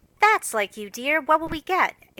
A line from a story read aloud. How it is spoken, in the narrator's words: exclaimed Joe